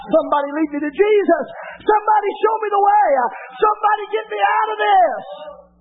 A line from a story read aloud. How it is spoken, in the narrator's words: they're really within, they're screaming out